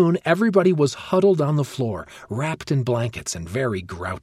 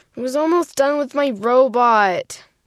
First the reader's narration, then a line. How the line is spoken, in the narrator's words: Joseph whined